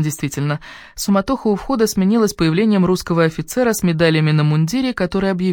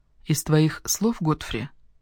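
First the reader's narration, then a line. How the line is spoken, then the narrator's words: Undertone comment. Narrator (Russian): прокомментировала Ирен вполголоса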